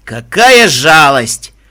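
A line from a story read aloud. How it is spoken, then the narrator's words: Booming voice. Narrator (Russian): прогремел голос Стерн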